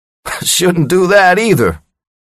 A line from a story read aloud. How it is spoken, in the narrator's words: he laughed